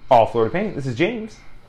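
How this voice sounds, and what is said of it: Put-on customer service phone voice. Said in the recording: “That's my phone voice.”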